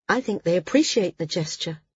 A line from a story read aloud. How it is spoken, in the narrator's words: Maris said